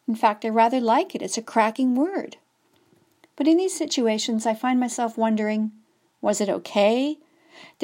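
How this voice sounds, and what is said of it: Canadian accent, drawling. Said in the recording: “this Canadian drawl? As one of my British friends describes my accent.”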